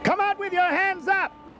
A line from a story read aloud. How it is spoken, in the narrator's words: yelled the police chief